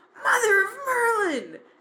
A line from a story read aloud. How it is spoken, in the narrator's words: Ginny shouted excitedly